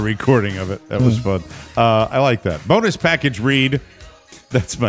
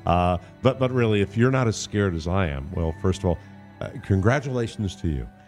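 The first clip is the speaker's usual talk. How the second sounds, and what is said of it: Jeff Goldblum impression. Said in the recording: “Jeff Goldblum checking out. ... my own Jeff Goldblum impression.”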